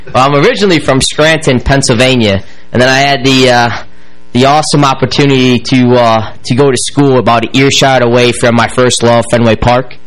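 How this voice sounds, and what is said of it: Hybrid Pennsylvania-Boston accent. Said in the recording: “you talk funny ... Up this crazy accent that they talk like up there, and they kind of have a hybrid now going on. So, hence why I'm very noticeable by the way I talk.”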